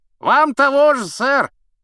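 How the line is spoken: Shouting. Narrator (Russian): крикнул рыцарь

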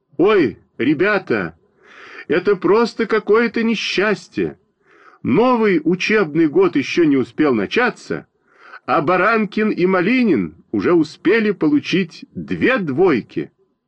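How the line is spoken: Shouting. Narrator (Russian): закричала

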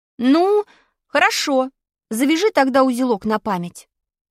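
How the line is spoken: Stern command. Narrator (Russian): строго повелел я

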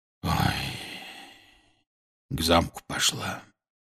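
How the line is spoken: Quiet. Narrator (Russian): тихо сообщил он

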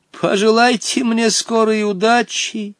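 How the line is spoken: Exclaiming. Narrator (Russian): воскликнул Хоттабыч

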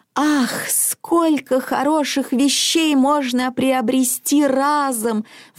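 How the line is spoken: Grandmother's wistful sigh. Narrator (Russian): вздохнула бабушка

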